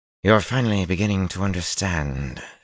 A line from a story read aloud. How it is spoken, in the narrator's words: she drawled